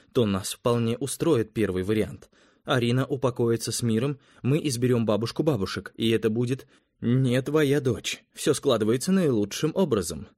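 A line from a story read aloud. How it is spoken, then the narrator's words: Quick. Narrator (Russian): быстро сказал Эрнеста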